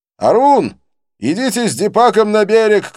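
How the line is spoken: Shouting. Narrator (Russian): кричал

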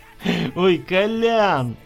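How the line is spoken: Laughing. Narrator (Russian): Засмеялся Егор

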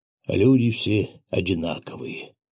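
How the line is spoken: Barely audible child. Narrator (Russian): еле слышно проговорил мальчик

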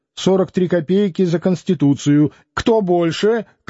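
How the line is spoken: Shout. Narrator (Russian): крикнул Лютов

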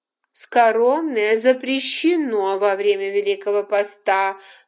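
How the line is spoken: Stern. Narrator (Russian): строго сказала Полина

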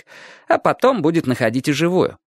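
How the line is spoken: Cheerful reply. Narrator (Russian): бодро отвечал Чик

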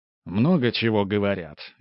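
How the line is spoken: Smirking grunt. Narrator (Russian): я хмыкнул

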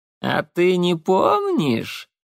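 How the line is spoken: Hoarse laughter. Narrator (Russian): Голос хрипло расхохотался

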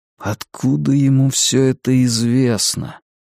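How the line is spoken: Muttering. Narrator (Russian): пробормотал Стью

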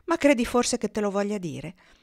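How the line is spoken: Gentle reply. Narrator (Italian): rispose con tono gentile

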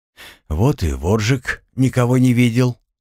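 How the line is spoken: Sighing. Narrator (Russian): вздохнул Артем

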